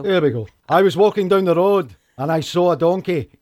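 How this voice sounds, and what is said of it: Scottish accent. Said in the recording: “it's hilarious in a Scottish accent.”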